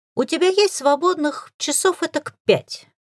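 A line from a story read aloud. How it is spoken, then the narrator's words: Innocent-sounding question. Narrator (Russian): невинным голосом осведомился он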